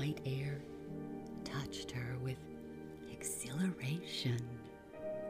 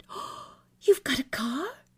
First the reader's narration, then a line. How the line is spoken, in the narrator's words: She cried with astonishment